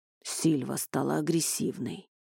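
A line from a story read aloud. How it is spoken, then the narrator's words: Muffled, hollow voice. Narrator (Russian): глухо произнес он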